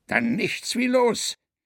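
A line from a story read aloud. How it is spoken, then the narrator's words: Enthusiastic exclamation. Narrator (German): rief Quakenbrück begeistert aus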